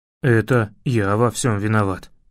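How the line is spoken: Sigh. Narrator (Russian): вздохнул Лави

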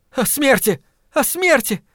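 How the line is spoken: Shout. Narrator (Russian): крикнула она

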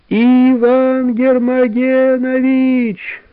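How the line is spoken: Shouting in unison. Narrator (Russian): закричали они разом

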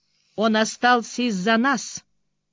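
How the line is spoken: Icy cold. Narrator (Russian): ледяным тоном ответила Бриана

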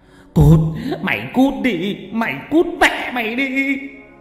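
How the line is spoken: Furious yelling through teeth. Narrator (Vietnamese): Ông nghiến răng nghiến lợi mà kêu gào

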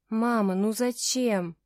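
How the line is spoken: Loud moan. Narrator (Russian): простонала я в голос

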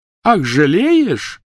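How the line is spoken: Shrill laughter. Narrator (Russian): Гермиона пронзительно расхохоталась

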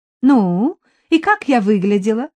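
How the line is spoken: Cheerful woman asking. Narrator (Russian): уже весело спросила женщина

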